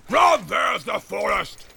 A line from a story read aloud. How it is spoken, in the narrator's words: He shouted